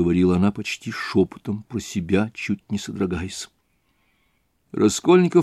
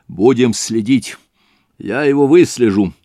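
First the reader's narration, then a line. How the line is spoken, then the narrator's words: Energetic shout. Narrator (Russian): энергически крикнул Разумихин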